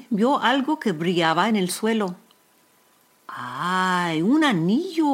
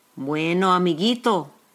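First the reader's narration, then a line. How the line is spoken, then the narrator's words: Plain. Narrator (Spanish): dijo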